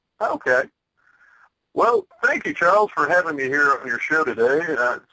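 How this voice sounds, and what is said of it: Distinctive, intelligent announcer voice. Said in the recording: “my distinctive, intelligent announcer voice”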